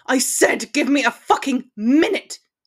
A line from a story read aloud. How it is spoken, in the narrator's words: he roared